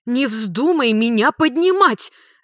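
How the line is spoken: Alarmed shriek. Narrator (Russian): завопила Жанна, заподозрив неладное

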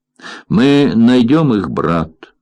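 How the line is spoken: Plain. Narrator (Russian): сказал Бобби

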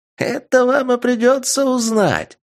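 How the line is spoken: Cheerful laughing dwarf. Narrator (Russian): карлик весело рассмеялся

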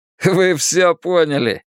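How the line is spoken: Laughing. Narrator (Russian): рассмеялся Дэйв

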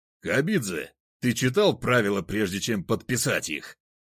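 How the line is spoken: Roaring judge. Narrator (Russian): взревел судья

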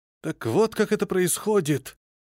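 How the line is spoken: Surprised and intrigued. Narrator (Russian): С удивлением и интересом промолвил Климент

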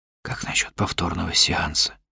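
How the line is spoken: Whisper. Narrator (Russian): прошептал я

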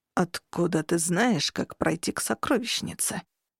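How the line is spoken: Angry, choking hiss. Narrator (Russian): Зло зашипел Дернут, едва не подавившись

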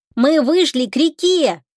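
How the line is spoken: Joyful shout. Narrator (Russian): радостно закричал Тишка

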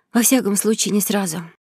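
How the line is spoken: Heavy sigh. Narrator (Russian): тяжело вздохнула

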